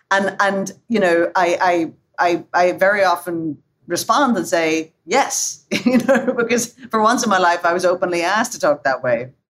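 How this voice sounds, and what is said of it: Slight Northern Irish trill. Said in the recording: “I hear the trill at the end of it from Northern Ireland. It's, you know, it kind of stretches out”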